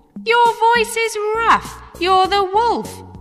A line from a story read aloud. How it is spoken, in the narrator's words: they cried